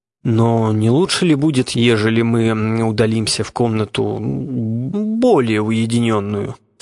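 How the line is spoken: Timid, hesitant question. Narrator (Russian): спросил он робко, как бы сомневаясь в приличии своего вопроса

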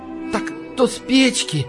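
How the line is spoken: Breathed out. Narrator (Russian): Выдохнул Васька

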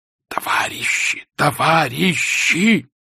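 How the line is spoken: Painfully hoarse wheeze. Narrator (Russian): сипел он, и в чуже становилось больно за его горло

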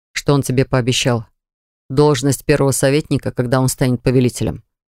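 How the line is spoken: Plain. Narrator (Russian): спросил я

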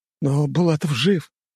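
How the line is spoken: Hoarse, through clenched teeth. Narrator (Russian): просипел сквозь зубы начальник тайной канцелярии

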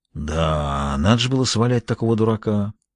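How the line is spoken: Self-critical mutter. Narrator (Russian): пробормотал Джулиус с редкой для него самокритичностью

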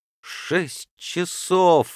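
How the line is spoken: Exclamation. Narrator (Russian): воскликнул Паспарту

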